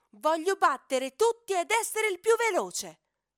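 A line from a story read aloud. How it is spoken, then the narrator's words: Loud shout. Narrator (Italian): grida a gran voce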